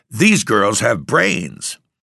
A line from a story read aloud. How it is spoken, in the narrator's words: a gentleman cried